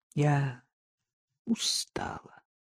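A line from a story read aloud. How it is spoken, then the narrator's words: Muffled, dull. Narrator (Russian): глухо отвечала Катя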